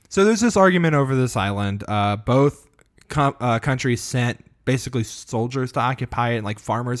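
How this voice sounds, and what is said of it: Slightly sick-sounding voice. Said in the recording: “I'm a little sick, so my voice sounds a little different”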